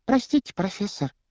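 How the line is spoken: Squeaky voice. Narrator (Russian): пропищала Парвати Патил

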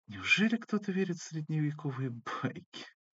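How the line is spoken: Girl cooing. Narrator (Russian): проворковала девушка

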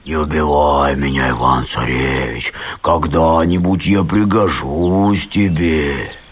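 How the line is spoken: Bear speaking in human voice. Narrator (Russian): медведь вдруг и говорит ему человеческим голосом

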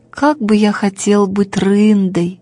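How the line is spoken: Sad sigh. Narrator (Russian): вздыхал грустно Бим-Бим

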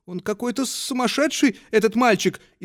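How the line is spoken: Frightened, embarrassed whisper. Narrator (Russian): испуганно и смущенно шептала она

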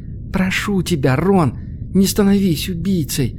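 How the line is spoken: Quiet young woman. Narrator (Russian): тихо произнесла девушка

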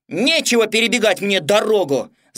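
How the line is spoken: Shouted. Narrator (Russian): закричал он

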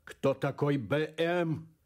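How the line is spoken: Growled. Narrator (Russian): прорычал он

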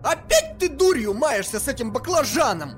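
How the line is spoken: Hysterical scream. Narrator (Russian): Истерично закричала Анжела

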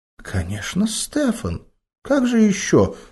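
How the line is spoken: Cooing. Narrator (Russian): проворковала Лиза

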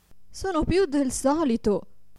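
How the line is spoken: Desperate woman exclaiming. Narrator (Italian): esclamava disperata la povera signora

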